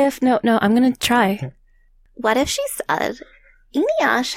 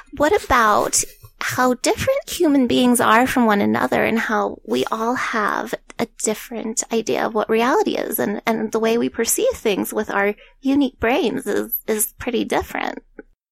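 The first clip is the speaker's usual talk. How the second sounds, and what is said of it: Old lady voice. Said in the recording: “in an old lady voice”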